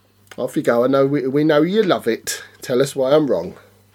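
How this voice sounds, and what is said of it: Strong Brummie accent. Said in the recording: “I can't believe how Brummy you just said that ... Can we talk about your accent”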